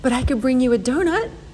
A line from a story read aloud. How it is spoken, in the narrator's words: said brightly